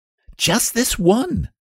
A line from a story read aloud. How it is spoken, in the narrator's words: cried Lionel